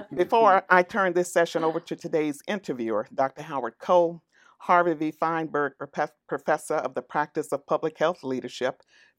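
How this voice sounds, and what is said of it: Texas accent. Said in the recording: “my Texas inflection”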